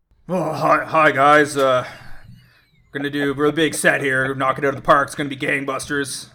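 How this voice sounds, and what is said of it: Put-on voice of a game designer. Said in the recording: “do this voice ... It's a design conference room at Wizards of the Coast”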